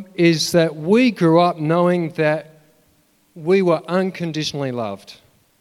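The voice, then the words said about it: Emotional, slightly choked-up voice. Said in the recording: “I'm getting a bit emotional”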